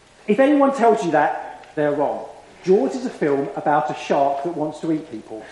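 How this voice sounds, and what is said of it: South coast English accent. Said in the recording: “as you can tell from my accent, on the south coast of England, Southend-on-Sea”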